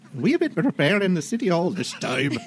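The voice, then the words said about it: Put-on Scottish accent. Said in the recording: “Switch between Scottish and Irish accents while you're doing it... I'll just try to do a Scottish accent.”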